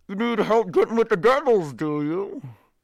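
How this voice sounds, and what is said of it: Muffled character voice. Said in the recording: “in a muffled voice”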